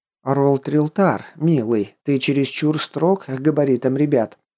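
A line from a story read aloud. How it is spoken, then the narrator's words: Gentle reproach from wife. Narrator (Russian): мягко осудила мужа супруга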